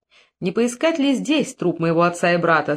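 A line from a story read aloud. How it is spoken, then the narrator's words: Plain. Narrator (Russian): спросил Гор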